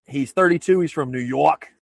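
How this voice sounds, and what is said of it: Poor put-on New York accent. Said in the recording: “That's a terrible New York accent, but I attempted it ... That was horrendous.”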